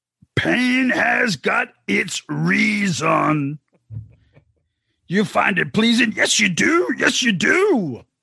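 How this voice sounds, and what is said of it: Demon voice sliding into gravelly imitation. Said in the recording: “Greetings from Louis Armstrong... trying to do the demon voice. I fucking overshoot it and get into Louis Armstrong.”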